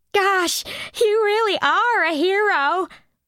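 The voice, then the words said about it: Simpering, fey voice. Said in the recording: “in that simpering fey voice,”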